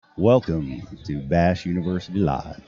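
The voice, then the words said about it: Imitated radio announcer voice. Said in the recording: “my best impression of the radio voice that you have naturally”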